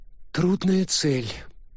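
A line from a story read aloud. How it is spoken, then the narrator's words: Sigh. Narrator (Russian): вздохнула Вашингтон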